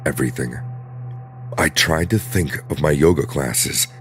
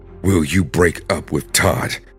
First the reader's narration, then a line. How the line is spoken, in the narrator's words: she asked through her teeth